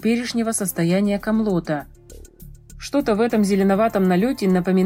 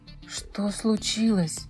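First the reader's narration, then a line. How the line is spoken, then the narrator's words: Whispered. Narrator (Russian): прошептал он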